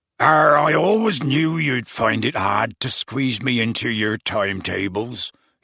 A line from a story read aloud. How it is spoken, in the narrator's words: he said gruffly